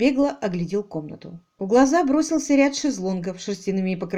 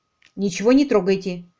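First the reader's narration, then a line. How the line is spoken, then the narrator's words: Sharp curt remark. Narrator (Russian): резко бросил Алик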